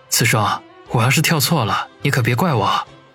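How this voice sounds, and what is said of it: Speaking quietly, low voice. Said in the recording (Chinese): “小声的说道”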